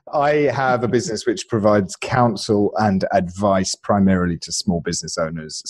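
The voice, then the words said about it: British accent. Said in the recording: “He's got a lovely accent ... I spoke with this accent ... So now I pretend to be from the UK.”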